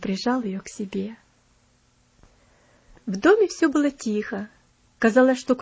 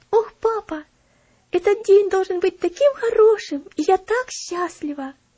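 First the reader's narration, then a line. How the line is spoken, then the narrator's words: Girl exclaiming joyfully. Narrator (Russian): радостно восклицала Элси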